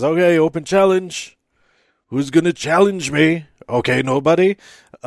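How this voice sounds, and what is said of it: Imitates another person's voice. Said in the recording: “my impression of Drew McIntyre. I don't know if it's any good.”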